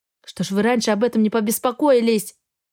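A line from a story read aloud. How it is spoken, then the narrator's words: Grumbling. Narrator (Russian): проворчала я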